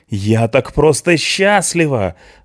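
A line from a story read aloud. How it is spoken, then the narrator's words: Loud laughter. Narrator (Russian): захохотала Мишана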